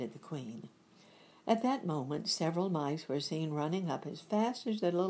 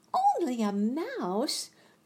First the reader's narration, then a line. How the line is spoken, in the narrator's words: cried the little animal indignantly